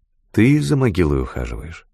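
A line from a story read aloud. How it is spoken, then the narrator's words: Plain. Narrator (Russian): спросила я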